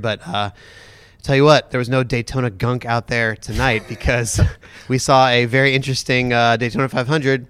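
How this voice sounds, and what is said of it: Sick, congested voice from a cold. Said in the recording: “Excuse my voice ... I'm fighting off a little bit of a Daytona gunk cold here”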